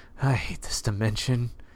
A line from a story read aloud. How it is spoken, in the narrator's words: muttered